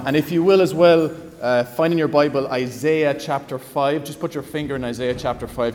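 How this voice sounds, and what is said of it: Thick Cork Irish accent. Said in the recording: “my Cork accent was just getting thicker”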